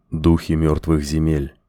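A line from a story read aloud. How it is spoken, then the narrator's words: Quiet. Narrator (Russian): тихо произнес Коэн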